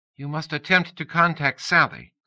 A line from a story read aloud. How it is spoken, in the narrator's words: Kumiko said impatiently